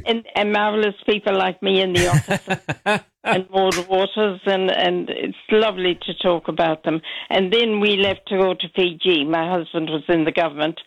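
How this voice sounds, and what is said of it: Irish accent from the west. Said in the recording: “It's Irish... Very Irish... From Mayo... Southern Ireland... in Connacht, in the west of Ireland”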